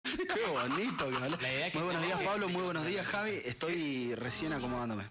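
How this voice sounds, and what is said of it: Deep radio-announcer voice. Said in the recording (Spanish): “Qué voz de locutor”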